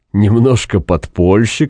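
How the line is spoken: Good-natured laughing. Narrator (Russian): сказал прокурор, благодушно смеясь

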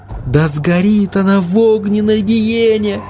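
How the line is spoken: Dazed repetition. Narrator (Russian): Как в тумане повторяла Марта

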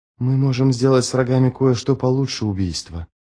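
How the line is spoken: Whispered. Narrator (Russian): прошептал он

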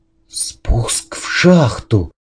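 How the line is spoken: Whisper. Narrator (Russian): прошептал

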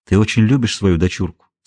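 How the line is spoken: Plain question. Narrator (Russian): спросил Морган

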